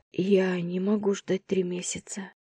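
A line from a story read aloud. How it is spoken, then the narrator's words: Barely audible, holding back tears. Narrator (Russian): едва слышно произнесла я, с трудом удерживая слезы, подступившие к горлу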